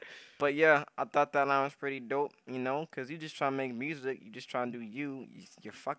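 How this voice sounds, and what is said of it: Usual voice. Nothing is said of it.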